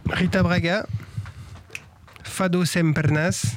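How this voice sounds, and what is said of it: Occitan accent on Portuguese words. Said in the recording (French): “j'ai pris un accent occitan pour parler portugais”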